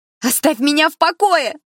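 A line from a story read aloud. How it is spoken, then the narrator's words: Furious shout. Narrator (Russian): закричала она яростно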